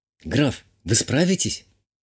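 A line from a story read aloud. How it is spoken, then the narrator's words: Barely audible question. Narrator (Russian): чуть слышно задала вопрос баронесса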